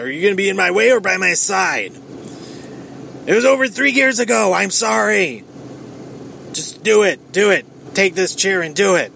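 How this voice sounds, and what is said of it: Seth Rollins impression. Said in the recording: “that was my Seth Rollins impression, kind of”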